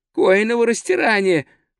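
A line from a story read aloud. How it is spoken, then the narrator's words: Moaning. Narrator (Russian): простонал он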